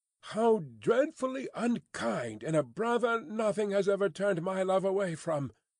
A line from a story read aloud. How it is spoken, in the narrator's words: cried Miss Pross